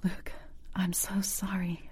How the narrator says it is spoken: I whispered

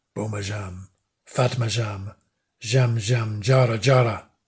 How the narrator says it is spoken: he said in a low voice, as though to himself

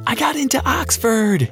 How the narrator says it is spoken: she screamed

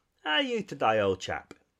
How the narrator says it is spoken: inquired the Rat cheerfully

